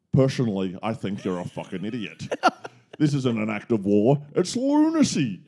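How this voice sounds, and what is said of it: Scottish accent, imitates film actor. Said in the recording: “I could probably give you some Scottish. ... A bit of Sean Connery. ... Sean Connery from The Rock.”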